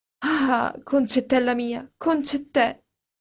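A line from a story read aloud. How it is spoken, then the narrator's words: Theatrical, ardent grief. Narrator (Italian): coi modi teatrali, ardenti, che le mie paesane hanno nel dolore, esclamò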